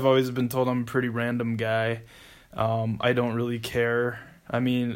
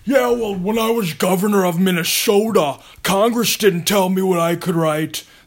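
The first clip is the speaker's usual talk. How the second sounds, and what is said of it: Jesse Ventura impression. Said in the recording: “So that's Jesse Ventura”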